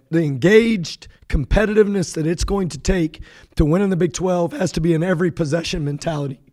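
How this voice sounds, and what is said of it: Hoarse, strained voice. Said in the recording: “lost my voice.”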